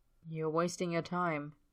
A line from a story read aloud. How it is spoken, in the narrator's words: Tyler murmurs, too low for anyone else to hear